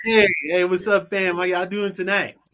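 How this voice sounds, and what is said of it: Polished radio host voice. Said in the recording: “He got that radio voice. ... Boy, he turned it on quick”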